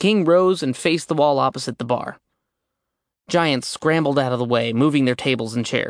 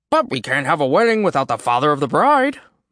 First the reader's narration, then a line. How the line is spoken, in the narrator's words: Thrym announced cheerfully